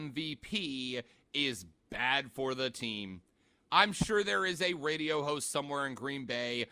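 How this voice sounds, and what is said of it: Usual voice. Nothing is said of it.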